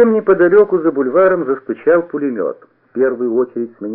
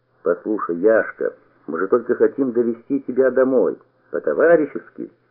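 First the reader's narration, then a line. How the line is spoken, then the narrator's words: Firm and calm. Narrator (Russian): сказал я твердо и спокойно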